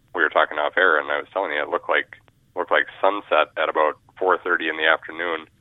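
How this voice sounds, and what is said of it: Congested, stuffy nasal voice. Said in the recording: “as you can probably hear, my voice is not exactly uh, sinus or allergy trouble free ... kind of a sinus and allergy nightmare”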